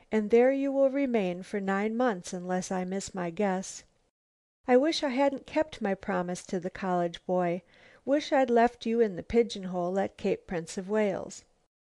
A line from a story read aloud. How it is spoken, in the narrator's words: she sighed